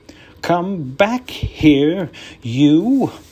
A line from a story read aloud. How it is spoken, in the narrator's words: cried